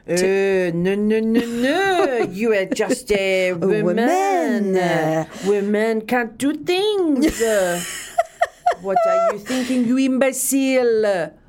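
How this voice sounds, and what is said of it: Good put-on French accent. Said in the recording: “You have a very good French accent. I love your French.”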